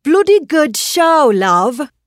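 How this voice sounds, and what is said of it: Put-on British accent. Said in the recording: “I'm going to speak with a British accent ... I tried, doing my best Monty Python imitation.”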